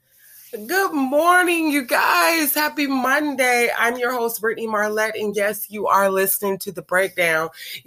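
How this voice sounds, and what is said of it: Sick, slightly rough voice. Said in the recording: “You guys can probably hear it in my voice. Yes, I have been sick... my voice is a little, but I've gotten better”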